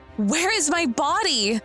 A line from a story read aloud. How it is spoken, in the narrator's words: He laughed